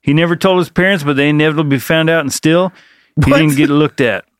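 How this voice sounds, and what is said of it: Thick accent. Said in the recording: “That accent was a little thick ... on that line.”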